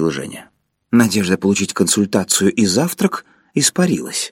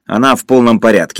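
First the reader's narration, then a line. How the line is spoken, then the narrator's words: Angry. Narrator (Russian): сердито сказал Юра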